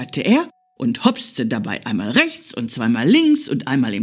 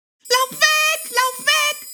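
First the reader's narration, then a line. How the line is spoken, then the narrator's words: Shrieking bird. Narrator (German): kreischte die Elster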